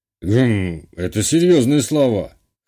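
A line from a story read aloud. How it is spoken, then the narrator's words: Skeptical hum. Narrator (Russian): хмыкнул Арсений Иванович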